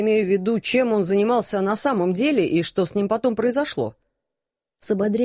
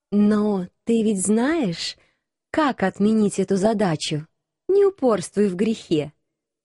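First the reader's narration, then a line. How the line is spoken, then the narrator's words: Unctuous, honeyed voice. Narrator (Russian): Елейным голосом посоветовала я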